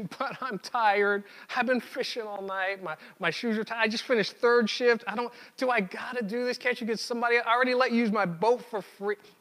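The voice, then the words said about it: Whiny character voice. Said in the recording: “In my head, it was a whiny voice”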